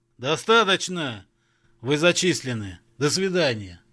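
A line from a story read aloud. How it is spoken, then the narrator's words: Pained bark. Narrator (Russian): Сморщившись, как от зубной боли, рявкнул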